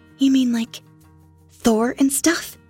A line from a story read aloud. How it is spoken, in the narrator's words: She asked excitedly